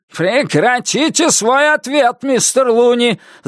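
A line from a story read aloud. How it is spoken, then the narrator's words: Yelling. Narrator (Russian): завопил Нус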